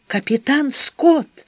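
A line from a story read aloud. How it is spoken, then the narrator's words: Trembling voice. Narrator (Russian): говорил дрогнувшим голосом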